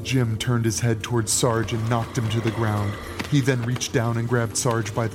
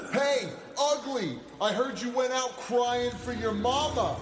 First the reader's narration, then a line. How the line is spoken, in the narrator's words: Sarge shouted at the apparition